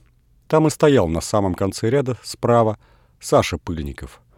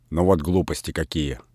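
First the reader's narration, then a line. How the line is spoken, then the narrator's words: Angry. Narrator (Russian): сердито сказал Передонов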